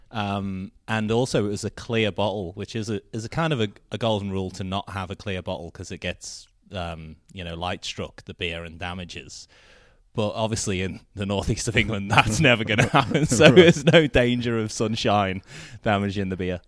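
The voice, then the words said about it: Softened Liverpool accent. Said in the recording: “Liverpool ... my accent has softened a little”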